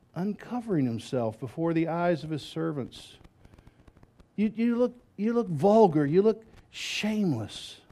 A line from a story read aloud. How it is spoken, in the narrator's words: very sarcastically